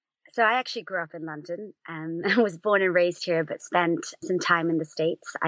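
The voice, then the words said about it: American-influenced accent, not local London. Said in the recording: “your accents. You're not from around these ear parts. ... that's where the accent came from, and it stuck.”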